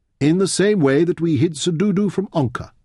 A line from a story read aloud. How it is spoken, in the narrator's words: Fenn replied